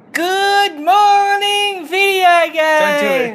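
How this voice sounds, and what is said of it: High-pitched voice. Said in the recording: “Do it in a high pitched voice. ... It hurt my throat.”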